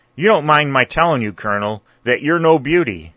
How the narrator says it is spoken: said Dick, who felt a sort of historical wish to laugh

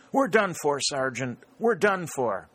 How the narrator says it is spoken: He gasped out

